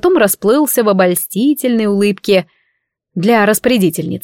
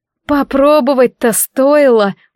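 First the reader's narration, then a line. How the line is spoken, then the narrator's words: Glum mutter. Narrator (Russian): уныло пробормотала я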